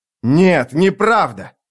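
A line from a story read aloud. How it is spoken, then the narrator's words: Shout. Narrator (Russian): крикнул резчик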